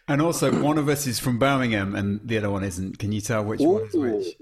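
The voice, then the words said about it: Birmingham Brummie accent. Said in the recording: “The Birmingham accent has a bit of a variety in it... the Brummie”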